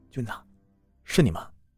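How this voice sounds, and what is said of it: Quiet, hushed question. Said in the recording (Chinese): “贴在垃圾桶上，小声的问”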